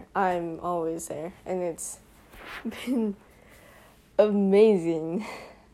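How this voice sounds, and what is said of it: Sarcastic delivery. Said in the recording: “That was sarcasm, if you cannot tell.”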